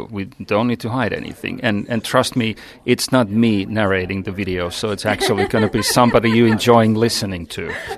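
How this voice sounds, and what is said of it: Speaks with a foreign accent. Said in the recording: “I'm enjoying your accent greatly”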